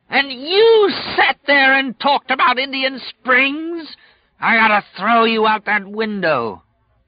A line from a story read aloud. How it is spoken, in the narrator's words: Flagg screamed